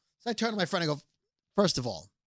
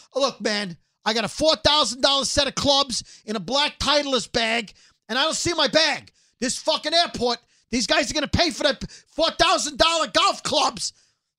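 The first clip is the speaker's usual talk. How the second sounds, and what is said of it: Loud yelling in a quoted voice. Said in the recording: “Why are you yelling it? ... Because now you're yelling it ... because you're yelling how they're $4,000”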